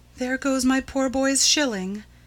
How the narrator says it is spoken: she said to herself sadly

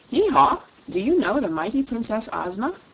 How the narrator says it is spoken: asked the king, his tone both surprised and eager

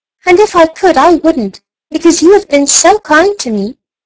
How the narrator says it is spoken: squeaked the little mouse toy

